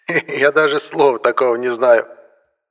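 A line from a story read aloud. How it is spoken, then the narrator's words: Laughing. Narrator (Russian): рассмеялся антиквар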